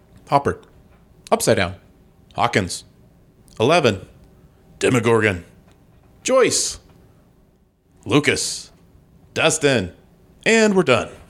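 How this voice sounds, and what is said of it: Choppy, skipping fast-forward delivery. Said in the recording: “my impression of somebody hitting the 15-second button on their phone ... That's the impression.”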